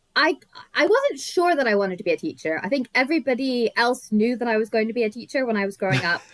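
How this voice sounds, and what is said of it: American accent. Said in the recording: “It's only my accent that kind of makes me seem American.”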